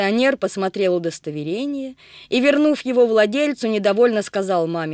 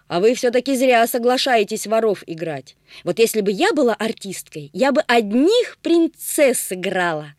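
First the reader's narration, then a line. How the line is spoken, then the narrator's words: Exclaimed then added. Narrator (Russian): воскликнула Агата, а потом добавила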